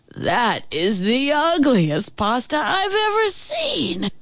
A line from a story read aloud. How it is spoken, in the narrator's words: Chef Rotund wheezed